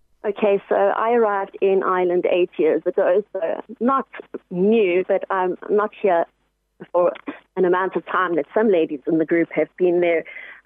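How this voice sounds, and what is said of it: South African accent. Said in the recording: “that accent of yours gives it away. I take it it's a South African accent. ... It is, yes.”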